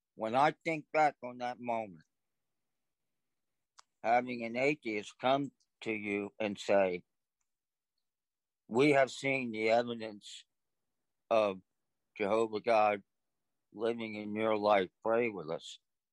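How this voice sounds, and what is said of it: Emotional, choked-up voice. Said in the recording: “I'm sorry, I get a little emotional.”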